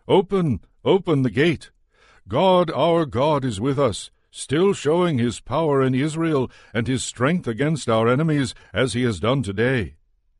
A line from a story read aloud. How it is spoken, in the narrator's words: From a distance Judith called out to the sentries at the gates